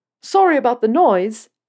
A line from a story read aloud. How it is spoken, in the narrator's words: Peter shouted over the engine